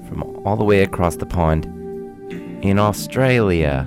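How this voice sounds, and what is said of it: Put-on Australian accent, not very good. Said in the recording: “Is that a good accent? Probably not.”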